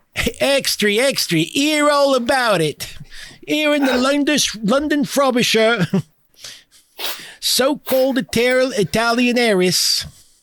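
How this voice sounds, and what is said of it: Poor put-on Cockney accent. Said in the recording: “my Cockney accent sucks ass”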